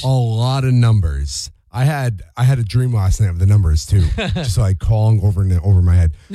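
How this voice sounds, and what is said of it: Hoarse, strained worn-out voice. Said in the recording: “I apologize in advance. My voice is shot today”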